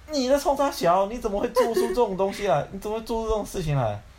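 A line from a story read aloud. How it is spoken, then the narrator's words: Plain. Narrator (Chinese): 小儿子就说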